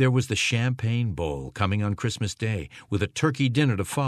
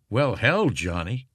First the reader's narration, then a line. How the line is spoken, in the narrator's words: Christensen said